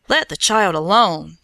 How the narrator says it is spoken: he cried

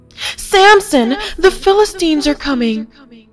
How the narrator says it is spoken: shouted

